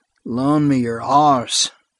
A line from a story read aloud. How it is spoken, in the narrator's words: groaned Vic